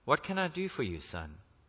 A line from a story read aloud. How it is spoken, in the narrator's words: She softly asked